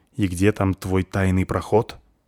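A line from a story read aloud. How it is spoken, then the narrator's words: Angry hiss. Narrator (Russian): сердито шипит на лодочника спичка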